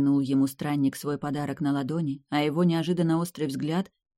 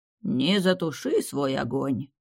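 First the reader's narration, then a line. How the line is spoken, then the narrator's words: Unintelligible mumble. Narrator (Russian): совсем уж непонятно пробурчал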